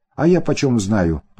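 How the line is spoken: Snapped retort. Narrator (Russian): огрызнулся

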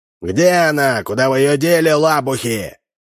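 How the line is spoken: Shout. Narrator (Russian): закричал

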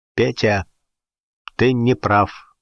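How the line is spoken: Calm statement. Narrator (Russian): спокойно заявил Гуров

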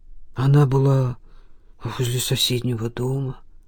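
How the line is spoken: Mumbled. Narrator (Russian): пробормотал Ефим

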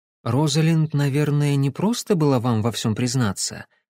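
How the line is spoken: Soft. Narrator (Russian): мягко проговорила Кэсси

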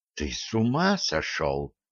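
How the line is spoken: Whisper. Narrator (Russian): только и прошептала она

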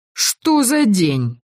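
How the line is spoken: Exclaimed. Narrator (Russian): воскликнул Быдаху

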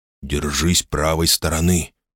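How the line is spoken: Father's hiss. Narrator (Russian): прошипел отец

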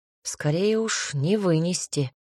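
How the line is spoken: Grumbled under breath. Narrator (Russian): буркнул почти про себя

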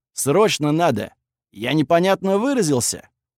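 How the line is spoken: Barked. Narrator (Russian): рявкнул Верзила

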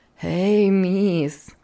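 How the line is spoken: Laughing. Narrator (Russian): все смеясь, продолжала Хлоя

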